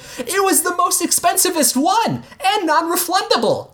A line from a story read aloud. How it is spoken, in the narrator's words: Gene shouted as he ran behind the counter